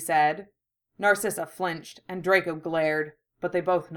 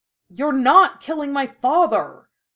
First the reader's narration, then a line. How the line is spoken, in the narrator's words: shouted angrily